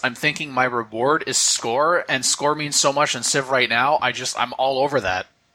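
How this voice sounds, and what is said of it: Sarcastic tone. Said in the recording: “you hear the sarcasm in my voice?”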